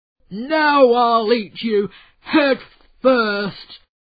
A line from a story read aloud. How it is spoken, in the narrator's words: roared the giant